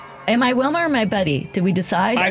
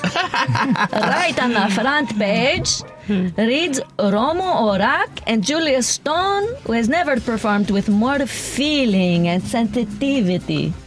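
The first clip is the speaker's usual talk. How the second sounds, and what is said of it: Put-on Greek accent. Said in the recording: “We have to do it in our accent ... we got to read this with a Greek accent”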